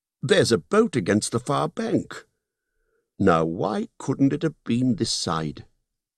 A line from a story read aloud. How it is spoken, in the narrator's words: Bilbo cried